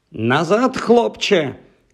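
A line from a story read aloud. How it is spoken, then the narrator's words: Teacher shouting. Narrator (Ukrainian): крикнула вчителька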